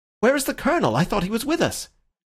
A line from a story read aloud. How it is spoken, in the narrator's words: Syme cried out like a man waking from sleep